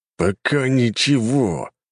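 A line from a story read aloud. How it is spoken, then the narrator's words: Through gritted teeth. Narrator (Russian): процедил Кулаков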